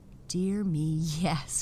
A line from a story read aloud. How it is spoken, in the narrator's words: Raggedy Andy laughed